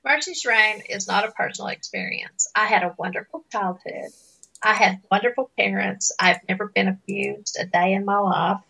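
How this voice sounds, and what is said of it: Appalachian accent. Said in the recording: “my voice is very Appalachian, if you can't tell that by talking to me”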